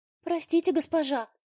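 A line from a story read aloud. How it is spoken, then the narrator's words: Timid faltering babble. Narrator (Russian): пролепетала бедняжка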